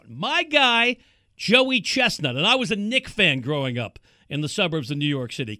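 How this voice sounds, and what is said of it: East Coast American accent. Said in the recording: “Can't you tell? East Coast accent is out today.”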